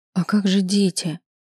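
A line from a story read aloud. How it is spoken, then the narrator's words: Timid, resigned. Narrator (Russian): произнесла робко, словно уже согласилась на его странное предложение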